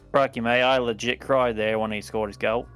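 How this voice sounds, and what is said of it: Good put-on Australian accent. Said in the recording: “What is this Australian? Why is it so good? How are you so good with Australian accent?”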